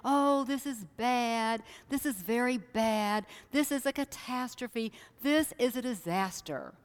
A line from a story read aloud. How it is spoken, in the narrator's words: moaning and groaning and saying